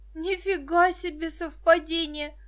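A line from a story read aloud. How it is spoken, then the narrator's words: Shout. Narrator (Russian): закричала Виктоша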